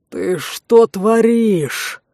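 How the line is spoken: Angry exhale. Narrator (Russian): Зло выдохнул Эрдал

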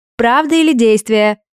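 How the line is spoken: Girls shouting in ragged chorus. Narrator (Russian): нестройным хором прокричали девчонки

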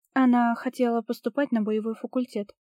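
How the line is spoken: Plain. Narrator (Russian): сказала

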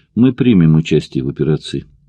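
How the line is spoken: Calm. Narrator (Russian): спокойно сообщил он

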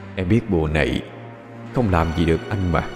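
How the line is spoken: Cold whisper. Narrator (Vietnamese): một luồng gió lạnh thì thầm bên tai cô

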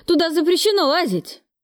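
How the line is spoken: Shouting. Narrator (Russian): закричал энергетик

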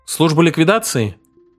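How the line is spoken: Plain. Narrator (Russian): говорит Фергюсон

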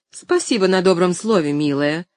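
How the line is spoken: Icy cold voice. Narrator (Russian): совсем ледяным голосом произнесла мисс Полли

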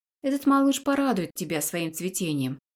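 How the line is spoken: Plain. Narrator (Russian): говорит девушка

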